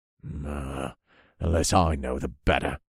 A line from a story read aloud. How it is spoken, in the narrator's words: he grumbled